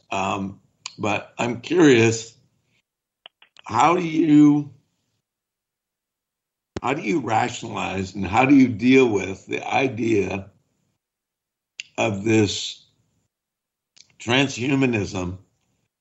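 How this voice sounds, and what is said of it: Slightly scratchy voice. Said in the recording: “My voice is a little scratchy.”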